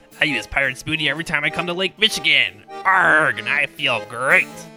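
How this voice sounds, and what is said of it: Pirate sea dog accent. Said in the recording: “a slight sea dog accent”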